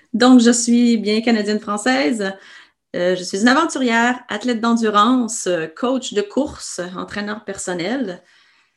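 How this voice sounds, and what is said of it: Québécois French accent. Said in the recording (French): “mon accent québécois me, précède”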